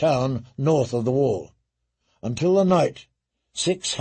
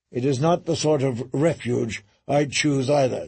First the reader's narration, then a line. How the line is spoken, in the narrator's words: John said